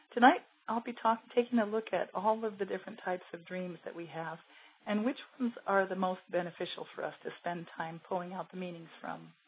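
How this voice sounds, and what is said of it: Voice still recovering, slightly strained. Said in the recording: “my voice is not completely 100% recovered”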